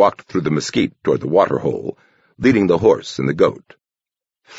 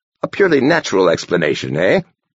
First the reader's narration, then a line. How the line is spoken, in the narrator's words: Benjamin chuckled wryly